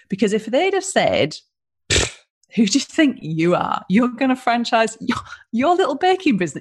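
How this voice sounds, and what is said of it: English accent replacing New Zealand accent. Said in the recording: “I really heard your Pommy accent then, so the New Zealander accent's gone completely”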